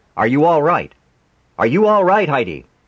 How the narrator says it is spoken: He shouted at her

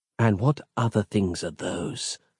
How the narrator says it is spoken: she murmured

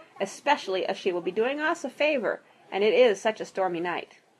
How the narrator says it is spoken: replied firmly

